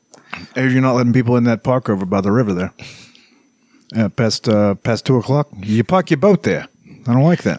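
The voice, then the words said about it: Put-on New York tough-guy accent. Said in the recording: “all of a sudden got a New York accent to be a heavy.”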